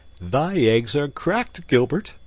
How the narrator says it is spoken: quoth Robin, laughing

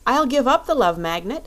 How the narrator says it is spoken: said the Shaggy Man eagerly

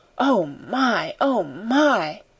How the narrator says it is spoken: her say hoarsely, in wild delight

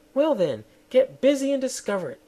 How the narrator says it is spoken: snapped the queen

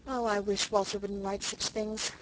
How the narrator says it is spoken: sighed Rilla

